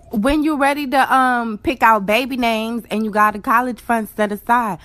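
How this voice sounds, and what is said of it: Accent from up top. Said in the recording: “she has a beautiful accent. ... she sounds like she's from up top.”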